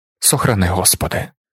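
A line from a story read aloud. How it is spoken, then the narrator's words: Workers muttering together. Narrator (Ukrainian): забурмотіли робітники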